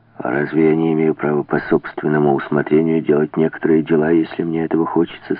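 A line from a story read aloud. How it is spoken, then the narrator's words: Plain. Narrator (Russian): спросил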